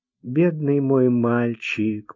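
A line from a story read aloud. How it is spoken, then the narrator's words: Mumble. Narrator (Russian): пробормотала она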